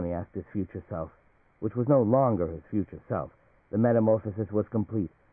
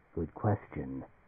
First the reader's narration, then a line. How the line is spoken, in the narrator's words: Palmer Eldritch said gravely